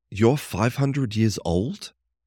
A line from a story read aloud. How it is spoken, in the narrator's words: I gasped, shocked